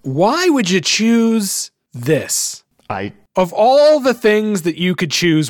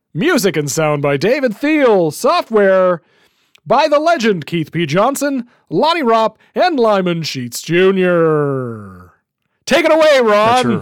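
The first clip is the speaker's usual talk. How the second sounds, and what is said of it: Game show announcer voice. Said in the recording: “That's your game show voice.”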